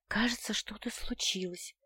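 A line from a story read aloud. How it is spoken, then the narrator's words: Barely audible whisper. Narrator (Russian): прошептала я едва слышно, только для Ренара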